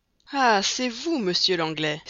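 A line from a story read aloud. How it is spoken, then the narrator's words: Colonel exclaiming. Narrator (French): s'écria le colonel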